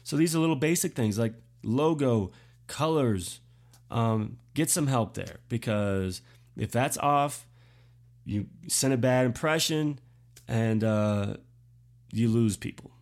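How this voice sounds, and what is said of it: Congested, sick-sounding voice. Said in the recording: “I also have a cold, if you can't tell.”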